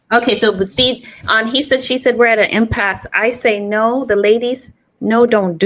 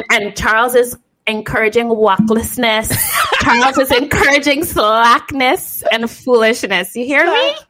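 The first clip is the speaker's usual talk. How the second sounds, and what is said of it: Put-on Caribbean accent, not very good. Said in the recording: “bust a toe Caribbean accent ... My Caribbean accent ain't that great”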